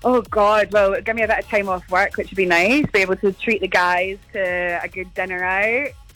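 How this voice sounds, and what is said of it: Scottish accent. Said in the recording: “I love your Scottish accent. You're from Scotland, are you?”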